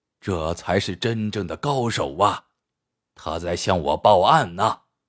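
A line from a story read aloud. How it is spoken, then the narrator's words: Quiet admiring whisper. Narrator (Chinese): 感叹着，悄悄对警卫员道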